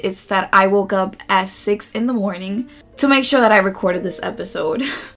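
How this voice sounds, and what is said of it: Rusty, slightly hoarse voice. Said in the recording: “my voice sounds a little bit rusty”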